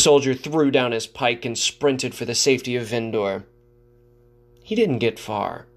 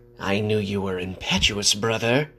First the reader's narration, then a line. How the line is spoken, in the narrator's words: spat